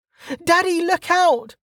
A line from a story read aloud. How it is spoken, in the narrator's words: the girl's voice cried